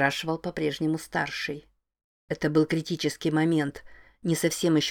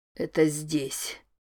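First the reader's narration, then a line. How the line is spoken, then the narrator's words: Strained, pained. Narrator (Russian): выдавил Норман, потирая правой рукой свою грудь под плащом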